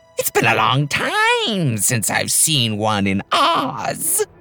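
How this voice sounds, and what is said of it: High-pitched witch character voice. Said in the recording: “a high voice said from somewhere above them”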